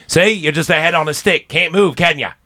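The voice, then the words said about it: Poor put-on Australian accent. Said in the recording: “My accent of that sucks.”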